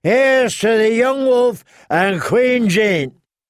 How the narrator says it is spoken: someone yelled

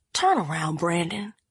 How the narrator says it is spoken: she said under her breath

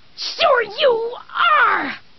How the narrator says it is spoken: She screamed

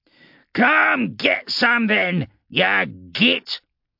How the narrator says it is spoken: Grimtooth spat back

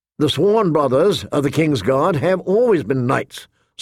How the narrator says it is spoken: Sir Boros said firmly

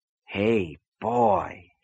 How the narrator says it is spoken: he said softly

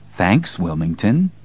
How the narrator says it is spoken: Deez said in his most courteous voice

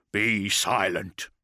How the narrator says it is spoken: grunted Sevatar

